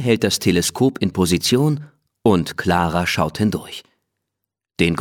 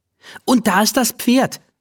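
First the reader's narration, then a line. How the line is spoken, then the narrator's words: Call. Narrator (German): ruft sie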